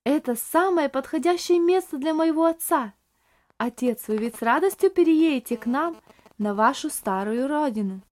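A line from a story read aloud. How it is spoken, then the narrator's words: Exclamation. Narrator (Russian): воскликнула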